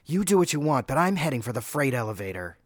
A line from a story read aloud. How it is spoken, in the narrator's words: she said harshly